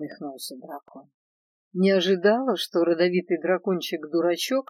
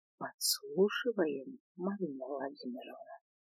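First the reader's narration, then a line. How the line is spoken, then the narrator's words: Whisper in ear. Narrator (Russian): прошептала мне на ушко Свен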